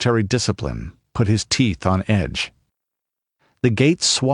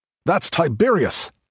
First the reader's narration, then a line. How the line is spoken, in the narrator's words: blurted one